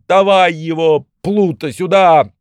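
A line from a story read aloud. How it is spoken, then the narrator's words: Shouting judge. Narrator (Russian): судья, да как крикнет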